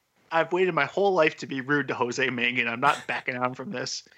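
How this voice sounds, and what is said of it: Usual voice. Nothing is said of it.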